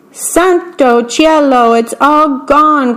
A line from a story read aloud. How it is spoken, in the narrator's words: cried Big Anthony